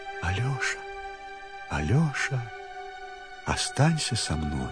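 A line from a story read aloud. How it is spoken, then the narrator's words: Quiet speech. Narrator (Russian): она тихонько ему говорит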